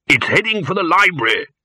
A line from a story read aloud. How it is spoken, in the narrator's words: he shouted